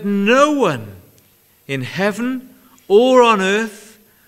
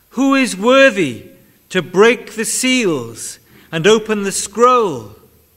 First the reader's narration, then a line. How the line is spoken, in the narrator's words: a mighty angel proclaiming in a loud voice